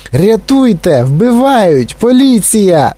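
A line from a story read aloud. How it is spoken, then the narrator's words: Shrill screaming. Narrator (Ukrainian): заверещала пані Глуп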